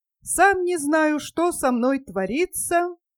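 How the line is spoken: Crying and laughing exclamation. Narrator (Russian): вскричал он, плача и смеясь

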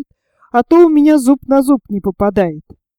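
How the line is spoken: Laughing reply. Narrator (Russian): ответил, смеясь Герберт

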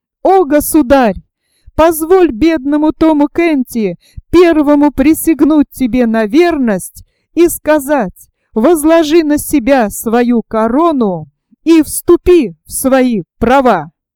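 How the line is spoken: Joyful exclamation. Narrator (Russian): Мнимый король с радостным лицом воскликнул

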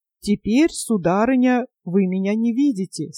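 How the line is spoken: Plain. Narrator (Russian): сказал он

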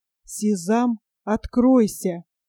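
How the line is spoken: Quiet. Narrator (Russian): Ганне негромко сказал

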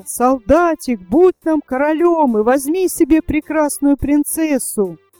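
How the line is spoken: Crowd shouting. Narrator (Russian): А весь народ закричал

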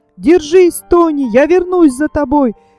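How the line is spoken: Shouting. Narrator (Russian): крикнул Фердинанд

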